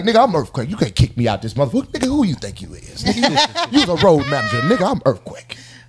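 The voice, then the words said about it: Imitates another person's voice. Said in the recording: “This is a great impression”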